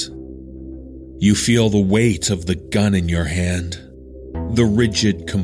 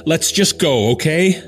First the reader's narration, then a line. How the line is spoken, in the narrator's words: I shout